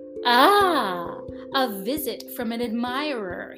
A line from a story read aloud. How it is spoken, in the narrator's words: he exclaimed when he caught sight of the little prince, still at some distance